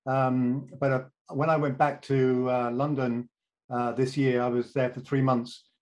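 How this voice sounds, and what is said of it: British accent. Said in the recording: “my accent uh, has been stubbornly British”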